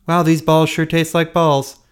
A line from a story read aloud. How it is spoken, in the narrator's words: I screamed